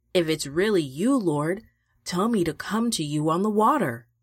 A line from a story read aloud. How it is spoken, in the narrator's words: Peter called out